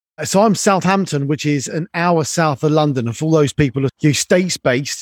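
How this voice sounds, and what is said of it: British English accent. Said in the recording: “A fellow Brit like yourself and the accent.”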